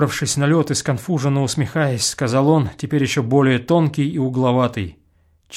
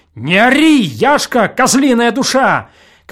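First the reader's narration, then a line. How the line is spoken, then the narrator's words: Shouting. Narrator (Russian): кричал Осип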